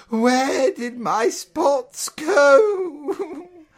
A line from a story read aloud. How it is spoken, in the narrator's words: Lisa sobbed